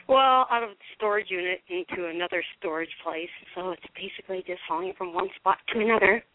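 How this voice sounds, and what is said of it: Out of breath. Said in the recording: “I'm a little out of breath ... I'm out of breath because I'm hauling boxes.”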